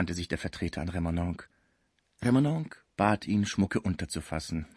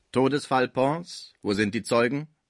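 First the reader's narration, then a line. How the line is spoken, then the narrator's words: Clerk calling out. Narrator (German): rief in diesem Moment der Schreiber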